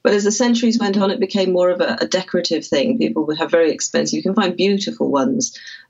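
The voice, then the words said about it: British Welsh accent. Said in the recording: “from your accent, I know you obviously live in the UK somewhere. ... In Wales.”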